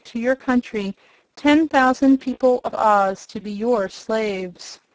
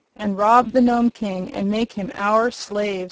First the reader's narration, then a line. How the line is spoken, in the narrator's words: said another